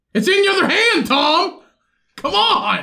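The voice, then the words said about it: Yelling loudly. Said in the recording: “Quit yelling.”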